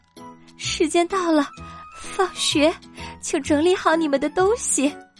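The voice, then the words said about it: Trembling voice. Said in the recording (Chinese): “用颤抖的声音说”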